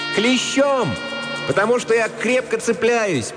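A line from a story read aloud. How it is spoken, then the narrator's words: Girl shouting with delight. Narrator (Russian): прокричала девочка, улыбаясь от удовольствия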